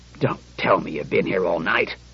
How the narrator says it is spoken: The commissioner looked at the clock and grunted

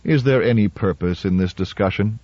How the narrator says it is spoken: asked Ninheimer wearily

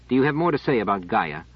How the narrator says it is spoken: Trevise, with no ready answer, said irritably

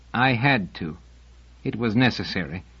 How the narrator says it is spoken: he said firmly

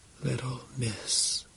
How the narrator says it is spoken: whispered, too low to be heard

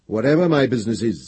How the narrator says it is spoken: said Gendebal firmly

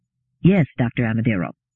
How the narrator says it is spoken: said

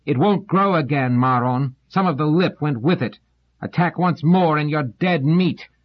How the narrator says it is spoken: Doors shouted

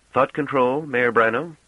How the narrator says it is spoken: asked Golan Treviz, speaking loudly as though to make up for the silence of the rest

